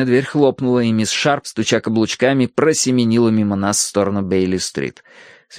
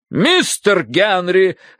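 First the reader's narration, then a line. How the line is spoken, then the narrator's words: Sharp bark. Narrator (Russian): рявкнула миссис Меринг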